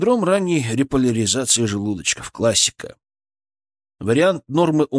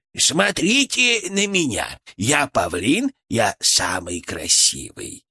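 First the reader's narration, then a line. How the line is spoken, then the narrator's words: Creaky voice in head. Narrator (Russian): проскрипел он у меня в голове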